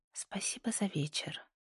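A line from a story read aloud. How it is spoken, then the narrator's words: Soft smiling whisper. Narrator (Russian): тихо прошептала она, улыбнувшись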